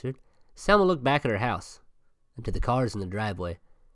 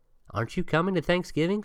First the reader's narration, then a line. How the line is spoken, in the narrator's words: she asked